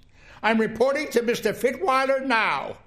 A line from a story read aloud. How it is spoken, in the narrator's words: she shouted